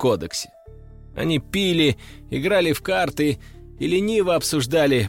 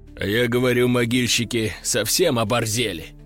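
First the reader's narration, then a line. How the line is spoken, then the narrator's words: Deep bass voice. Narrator (Russian): басил Сикач, главарь банды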